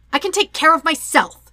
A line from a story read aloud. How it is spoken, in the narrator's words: Katara snaps, even though her eyes are wide with fear